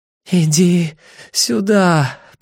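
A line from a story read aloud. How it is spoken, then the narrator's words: Moan. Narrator (Russian): простонала она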